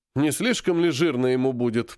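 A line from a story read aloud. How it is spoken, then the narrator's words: Grumbled. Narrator (Russian): проворчал Серый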